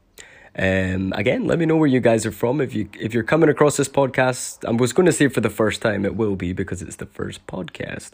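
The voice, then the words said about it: Mixed Scottish-influenced accent. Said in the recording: “my mum is Filipino ... my father was Scottish, so that's why I've got this weird, funky accent”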